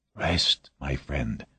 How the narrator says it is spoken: Voznesensky whispered

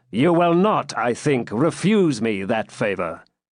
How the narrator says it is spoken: said the pilgrim in a commanding tone

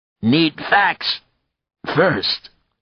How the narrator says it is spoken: he croaked

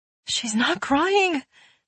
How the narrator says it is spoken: the mother wailed

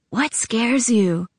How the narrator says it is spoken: he whispered

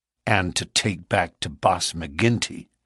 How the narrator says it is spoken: said Morris bitterly

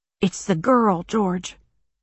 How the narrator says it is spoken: she whispered

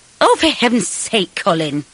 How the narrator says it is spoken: Mum snapped

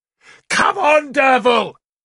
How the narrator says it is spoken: Galahad screamed

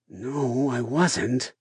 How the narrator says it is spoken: I said, trying to make my voice sound groggy, like I was still half asleep

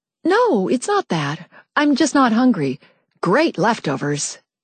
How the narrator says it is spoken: said cheerfully

